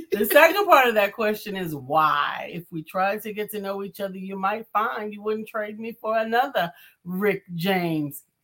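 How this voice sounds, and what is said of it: Imitates another person's voice. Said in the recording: “That don't sound like Mark Greer... I'm doing an impression.”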